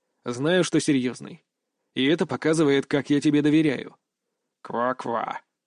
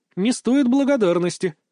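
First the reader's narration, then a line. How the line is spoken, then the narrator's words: Snorting toad. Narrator (Russian): фыркнула жаба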